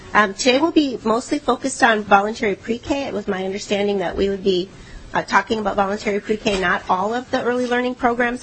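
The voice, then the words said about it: Muffled, sick-sounding voice. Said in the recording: “A little bit under the weather today ... I sound a little muffled, it's because I think I got what a lot of people have”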